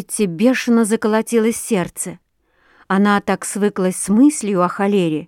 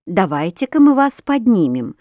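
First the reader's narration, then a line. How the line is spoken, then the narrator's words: Plain. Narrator (Russian): сказала настоятельница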